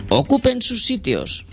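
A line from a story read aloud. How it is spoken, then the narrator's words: Exclaimed. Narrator (Spanish): exclamó el primer ministro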